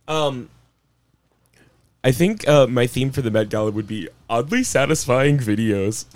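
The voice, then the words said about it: Vague put-on Hindi accent. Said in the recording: “with like a vague Hindi accent”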